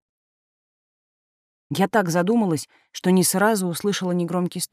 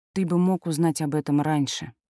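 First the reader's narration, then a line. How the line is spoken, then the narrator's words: Sighing. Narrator (Russian): вздохнула я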